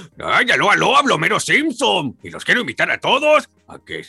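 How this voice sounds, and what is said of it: Imitates cartoon character Homer Simpson. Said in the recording (Spanish): “una imitación de, de, algo ... a una caricatura ... como Homero Simpson”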